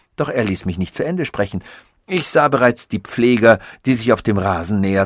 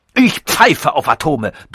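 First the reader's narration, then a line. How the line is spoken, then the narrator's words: Thundering loudly. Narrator (German): donnerte er los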